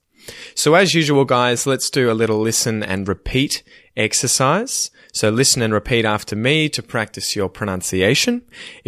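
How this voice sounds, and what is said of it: Australian accent. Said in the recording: “If you're trying to nail an Australian accent, really focus in on how I'm saying it.”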